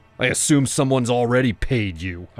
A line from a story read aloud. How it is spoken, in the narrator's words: I shouted